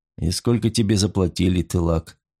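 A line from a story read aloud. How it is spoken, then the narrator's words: Just above a whisper. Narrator (Russian): произнес чуть громче шепота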